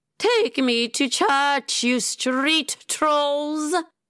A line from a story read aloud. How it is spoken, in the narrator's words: Lady Crosshatch screeched